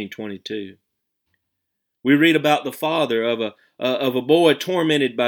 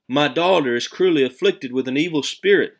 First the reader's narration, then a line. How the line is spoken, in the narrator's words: a mother in the hills of Canaan cried